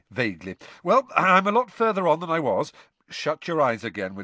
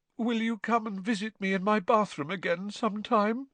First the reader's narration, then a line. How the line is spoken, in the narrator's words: Moaning Myrtle asked mournfully